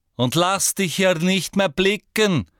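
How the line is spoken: Called out. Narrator (German): rief Madame Rosmerta

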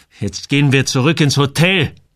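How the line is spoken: Bellowing. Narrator (German): brüllte

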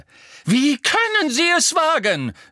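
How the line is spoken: Calling while running. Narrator (German): rief die Gestalt im Laufen

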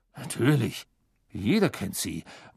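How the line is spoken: Murmuring. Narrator (German): murmelte Mr

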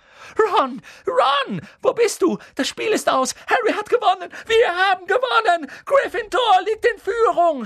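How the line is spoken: Excited shout. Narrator (German): schrie Hermine

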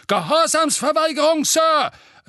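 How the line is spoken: Thundering stout man. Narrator (German): donnerte ein korpulenter, rotnasiger Zauberer

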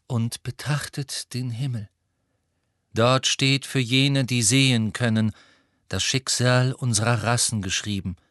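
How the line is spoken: Calm voice. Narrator (German): sagte Firenze mit seiner ruhigen Stimme

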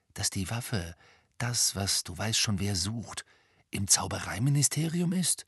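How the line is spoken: Whispering. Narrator (German): flüsterte Ron

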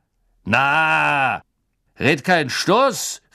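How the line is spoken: Called out. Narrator (German): rief sein Freund

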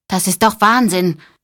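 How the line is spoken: Calling out. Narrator (German): rief Corky

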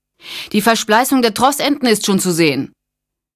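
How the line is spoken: Man calling out. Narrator (German): rief einer der NASA-Männer an den Winden

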